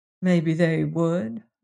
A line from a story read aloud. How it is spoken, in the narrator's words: muttered Mrs